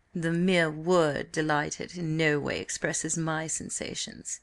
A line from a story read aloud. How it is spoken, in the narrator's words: replied the colonel in the drawling, rather unpleasant voice peculiar both to him and to the duke